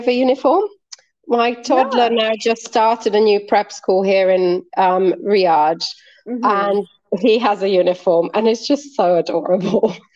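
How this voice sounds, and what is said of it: British-sounding English accent. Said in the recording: “your accent sounds very British.”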